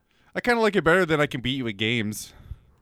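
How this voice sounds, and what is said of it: Noticeable accent. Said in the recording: “There's the accent.”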